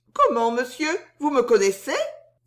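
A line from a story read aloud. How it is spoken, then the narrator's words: Feigned surprise, exclaiming. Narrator (French): s'écria Suzon avec une surprise très bien jouée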